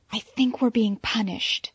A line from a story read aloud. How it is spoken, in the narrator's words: Selina whispered